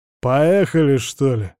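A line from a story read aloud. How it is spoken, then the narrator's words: Gruff mutter. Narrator (Russian): пробурчал уголовник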